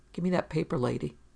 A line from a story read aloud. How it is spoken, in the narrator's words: Steve said quietly and stubbornly